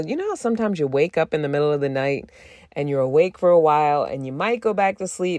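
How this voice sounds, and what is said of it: Slight tired vocal fry. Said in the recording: “I might sound a little like I feel like I have a slight vocal fry, a little bit of a like exhaustion fry”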